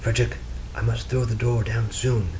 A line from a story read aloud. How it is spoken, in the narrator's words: she whispered